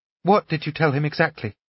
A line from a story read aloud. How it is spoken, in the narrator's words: Natasha asked anxiously